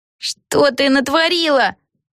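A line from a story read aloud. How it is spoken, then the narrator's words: Wail. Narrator (Russian): взвыла Криспи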